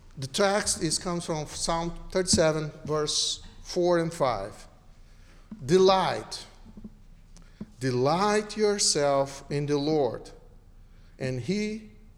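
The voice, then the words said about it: Strong non-native accent. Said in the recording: “My accent hurts, so it's up to you to follow me.”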